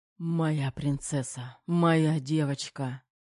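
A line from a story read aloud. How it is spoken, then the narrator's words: Breathless exhale. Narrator (Russian): Выдохнул Терехов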